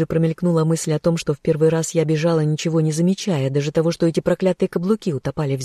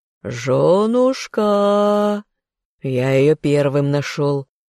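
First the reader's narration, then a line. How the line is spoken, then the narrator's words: Growled, pepper-sprayed. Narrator (Russian): Прорычал тот, которому я в лицо брызнула из перцового баллончика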